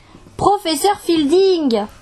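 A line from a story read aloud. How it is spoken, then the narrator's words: Screaming. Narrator (French): hurla Sari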